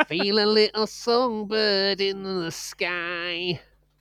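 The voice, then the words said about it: Bad put-on Mancunian singing accent. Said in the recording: “terrible Mancunian impression.”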